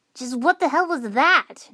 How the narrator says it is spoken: Naruto shouted

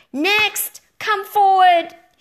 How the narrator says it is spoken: she yelled

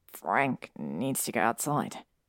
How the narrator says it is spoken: he said in a quiet voice

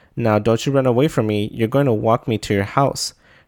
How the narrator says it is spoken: the kid said

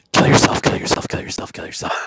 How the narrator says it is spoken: telepathically, really stealthily, just whisper into his mind

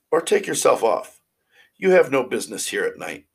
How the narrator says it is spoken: cried the boy

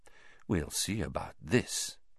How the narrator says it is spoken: said Snape softly

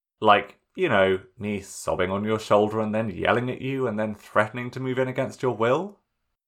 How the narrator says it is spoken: Sokka laughed a little

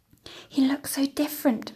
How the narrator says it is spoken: Mother whispers

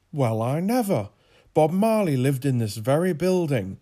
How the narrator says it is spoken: Jasper exclaimed

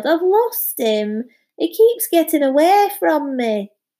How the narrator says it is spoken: he wailed

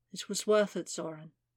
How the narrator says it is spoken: she murmured

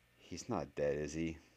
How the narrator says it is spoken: Harry sighed

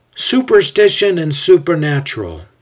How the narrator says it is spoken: Ezio exclaims with fatigue in his voice

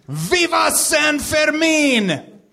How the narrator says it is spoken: The assistant coach, the very unremarkably named Tex Winter, screamed

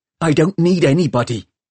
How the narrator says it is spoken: she said fiercely

